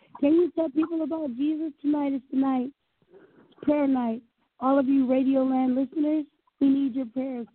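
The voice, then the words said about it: Very hoarse voice. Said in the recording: “She's very hoarse tonight.”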